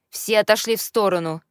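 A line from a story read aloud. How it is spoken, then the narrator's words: Menacing shout. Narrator (Russian): грозно прикрикнула Эрика Магни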